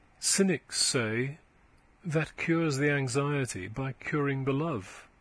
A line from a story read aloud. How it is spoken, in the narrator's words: endeavoured to say calmly